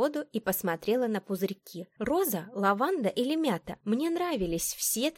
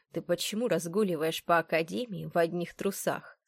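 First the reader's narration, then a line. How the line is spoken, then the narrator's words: Stern, composed question. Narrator (Russian): строго спросил ректор, успевший вернуть себе невозмутимый вид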